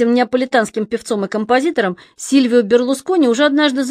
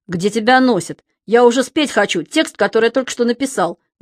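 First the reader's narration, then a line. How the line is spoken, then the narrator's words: Menacing. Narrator (Russian): грозно сказал Берлускони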